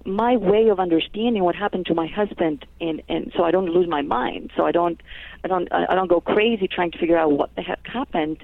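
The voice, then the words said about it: Greek accent. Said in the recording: “I was raised in Greece, actually, that's where the accent is from”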